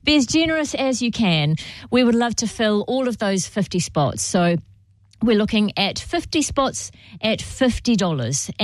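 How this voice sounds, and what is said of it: Croaky voice. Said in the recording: “My voice has just gone a little bit croaky there.”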